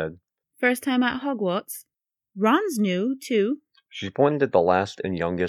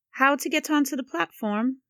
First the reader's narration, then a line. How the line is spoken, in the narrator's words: she said kindly